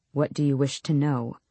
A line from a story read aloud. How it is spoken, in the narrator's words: Kaol said flatly